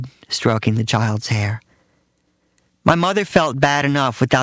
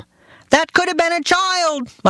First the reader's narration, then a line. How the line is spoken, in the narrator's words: my father shouted